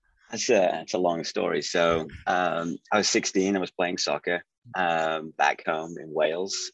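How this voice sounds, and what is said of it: Speaks with an unusual accent. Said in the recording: “you got this funny accent.”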